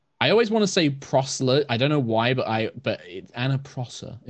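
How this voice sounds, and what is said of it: British accent. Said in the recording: “I like when you say my name. My name sounds better with a British accent.”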